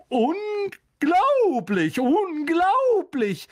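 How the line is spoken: Man calling out. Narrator (German): rief er

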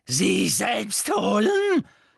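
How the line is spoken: Shrieking with mad cackling laughter. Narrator (German): kreischte Bellatrix und ließ ein gackerndes, wahnsinniges Lachen hören

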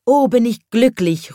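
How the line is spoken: Happy child calling out. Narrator (German): ruft dann der kleine Schornsteinfeger

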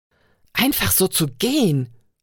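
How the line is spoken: Snarling. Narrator (German): fauchte er beide an

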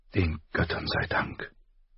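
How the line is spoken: Breathy whisper. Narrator (German): hauchte sie

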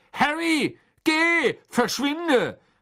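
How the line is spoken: Called out. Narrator (German): rief Mr

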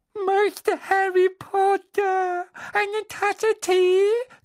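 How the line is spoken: Loud squeak over sobbing. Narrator (German): quiekte er laut über Winkys Schluchzen hinweg

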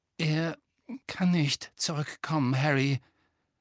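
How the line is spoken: Breaking voice. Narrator (German): sagte Lupin mit brechender Stimme

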